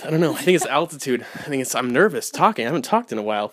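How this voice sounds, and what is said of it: Out of breath. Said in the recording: “I'm out of breath.”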